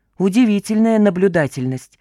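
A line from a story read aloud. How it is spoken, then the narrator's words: Barked. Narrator (Russian): рявкнул Гена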